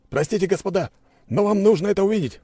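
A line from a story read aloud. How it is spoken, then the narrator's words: Breathless shout. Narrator (Russian): прокричал он, с трудом переводя дыхание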